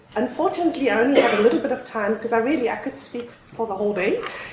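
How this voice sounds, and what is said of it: Unusual South African-mixed accent. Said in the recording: “As many of you can hear, I've got a really strange accent. I was born and raised in South Africa ... Then I lived 18 years in Europe”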